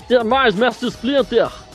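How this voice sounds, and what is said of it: Imitates a cartoon character's voice. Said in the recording (Portuguese): “É a tentativa de imitação do Natelo Antigo... ficou bom, ficou bom.”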